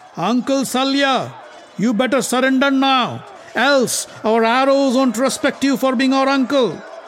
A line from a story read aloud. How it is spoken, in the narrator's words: Nakul yelled at him